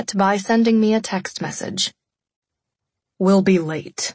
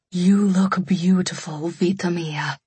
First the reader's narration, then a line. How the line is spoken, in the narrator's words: Mama breathed